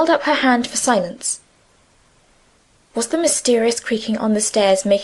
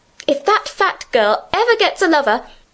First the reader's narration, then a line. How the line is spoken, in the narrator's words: said indignantly